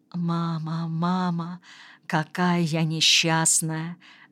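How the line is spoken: Whisper. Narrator (Russian): шептала она

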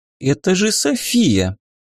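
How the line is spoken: Uncertain objection. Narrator (Russian): как-то неуверенно попробовала воспрепятствовать та

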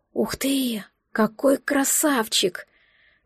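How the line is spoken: Admiring breathless exclamation. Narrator (Russian): Выдохнула восхищенно

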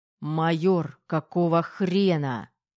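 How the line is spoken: Practiced growl. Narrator (Russian): Рычание тренированное годами

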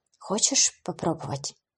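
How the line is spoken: Hoarse question, then cough. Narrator (Russian): хрипло спросила она и прокашлялась

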